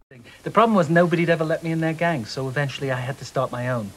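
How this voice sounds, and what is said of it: Bad American accent, neurotic New Yorker. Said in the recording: “he's doing a bad American accent. He's doing a Woody Allen. He's doing a bad Woody Allen impression.”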